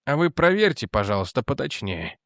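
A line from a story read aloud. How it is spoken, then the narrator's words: Soft but commanding. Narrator (Russian): сказал Бэнкс мягко, но так, что просьба звучала как распоряжение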